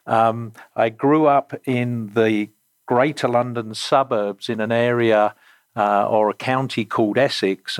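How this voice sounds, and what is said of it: English accent. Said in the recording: “you will most likely detect from my my accent I actually am English by birth”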